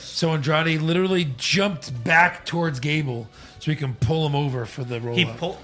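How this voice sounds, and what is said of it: Voice sounds bad, strained. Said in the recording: “Get the fuck off the throne, like I said last week. Yeah. That's why my voice is bad.”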